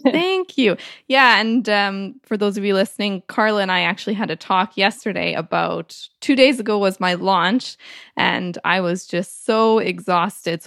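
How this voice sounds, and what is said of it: Funny-sounding voice with sore throat. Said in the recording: “my voice sounds a bit funny... I have a bit of a sore throat.”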